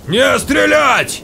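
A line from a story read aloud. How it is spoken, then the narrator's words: Yelled. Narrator (Russian): заорал он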